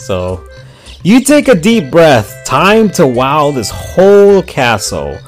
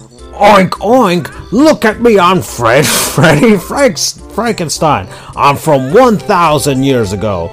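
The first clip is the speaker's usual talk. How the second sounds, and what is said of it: Cartoon caveman character voice. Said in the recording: “Please show us your best Fred Flintstone impersonation ... your Fred Flintstone impression”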